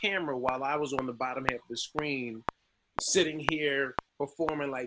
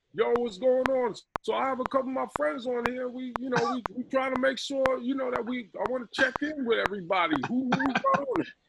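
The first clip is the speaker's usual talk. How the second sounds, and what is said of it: Tracy Morgan impression. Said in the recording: “here's my impression of a celebrity Zoom call that Tracy Morgan was moderating. So I had like Tracy”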